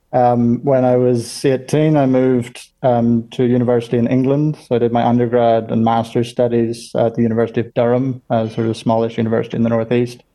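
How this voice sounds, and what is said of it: Northern Irish accent. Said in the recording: “I was born in Northern Ireland, which explains the accent”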